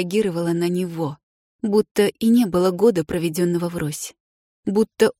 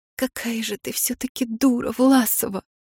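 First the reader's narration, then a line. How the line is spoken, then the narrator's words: Whispered with a sob. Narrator (Russian): прошептала я в зеркало и всхлипнула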